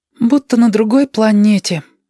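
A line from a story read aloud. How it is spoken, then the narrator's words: Sighing. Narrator (Russian): вздохнул Кудрявость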